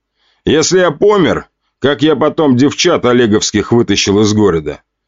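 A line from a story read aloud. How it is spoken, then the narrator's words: Wry grunt. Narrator (Russian): хмыкнул ответ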